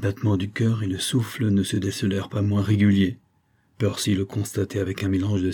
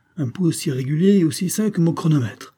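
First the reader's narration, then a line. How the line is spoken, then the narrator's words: Exclaimed after a pause. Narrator (French): s'exclama-t-il après un silence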